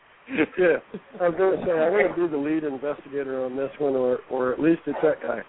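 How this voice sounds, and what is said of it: Deep voice, southern accent. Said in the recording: “sounds more serious than you and I do. It must be that deep southern accent, like deep voice southern accent”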